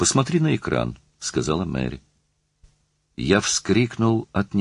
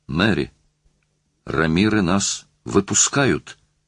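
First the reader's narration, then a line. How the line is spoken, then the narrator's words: Delighted exclamation. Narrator (Russian): воскликнул я в восторге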